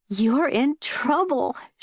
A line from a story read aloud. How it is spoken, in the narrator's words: she said, gasping